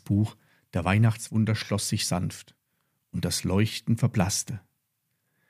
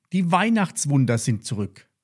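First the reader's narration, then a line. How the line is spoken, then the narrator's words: Called out. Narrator (German): rief Lilli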